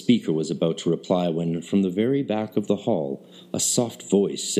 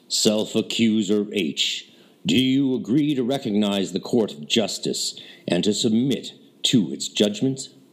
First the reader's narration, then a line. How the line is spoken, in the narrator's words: said in his clear proclamatory voice